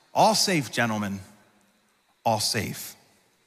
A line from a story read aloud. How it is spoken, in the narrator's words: he turned around and calmly announced